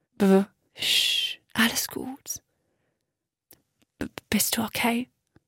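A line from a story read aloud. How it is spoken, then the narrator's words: Very faint weak voice. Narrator (German): Max' Stimme war so schwach, dass Miri die Worte kaum verstehen konnte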